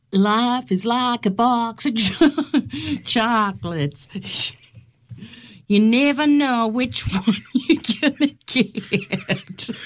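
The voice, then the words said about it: Forrest Gump impression. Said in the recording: “my Forrest Gump impression”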